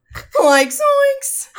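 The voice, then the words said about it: Cartoon character impression, Shaggy. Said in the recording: “do an alright impression of Shaggy”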